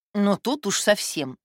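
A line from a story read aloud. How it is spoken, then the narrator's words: Snort. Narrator (Russian): фыркнула Таточка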